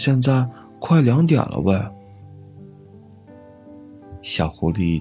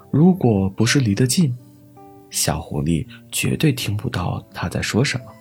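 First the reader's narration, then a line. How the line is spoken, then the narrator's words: Mumbling small rabbit. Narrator (Chinese): 怀里的小兔子嘟嘟囔囔的说着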